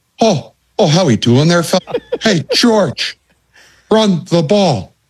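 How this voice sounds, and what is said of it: Imitates another person's accented voice. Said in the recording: “a great accent”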